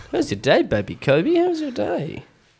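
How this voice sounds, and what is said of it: Baby voice. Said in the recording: “Speaking a little baby voice to start us off ... I'm just speaking in baby to everyone”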